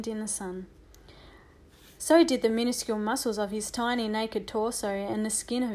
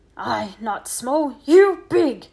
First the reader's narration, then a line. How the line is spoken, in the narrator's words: the Indian shouted angrily